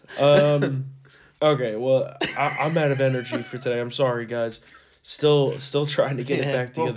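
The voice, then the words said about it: Hoarse, worn-out voice. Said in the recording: “my voice is just it's shot”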